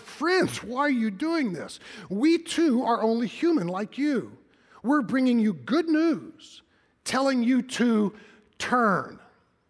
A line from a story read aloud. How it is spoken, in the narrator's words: shouting